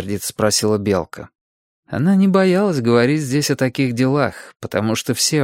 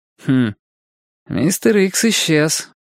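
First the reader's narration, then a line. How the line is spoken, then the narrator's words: Snorting. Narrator (Russian): хмыкнул Костя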